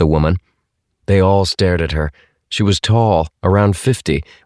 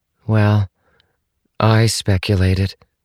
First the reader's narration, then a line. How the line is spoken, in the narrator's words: She added in a hollow voice